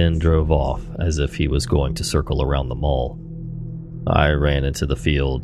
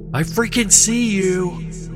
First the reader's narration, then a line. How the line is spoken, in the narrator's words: yelled